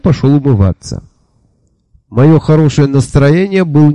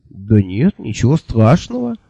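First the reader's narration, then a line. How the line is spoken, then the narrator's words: Confused, deflated agreement. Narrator (Russian): растерянно согласился обнаглевший было, а теперь снова поникший гость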